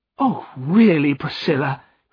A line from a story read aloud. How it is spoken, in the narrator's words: cried Nancy